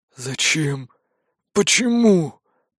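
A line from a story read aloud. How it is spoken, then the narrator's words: Hoarse rasp. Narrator (Russian): прохрипел Сад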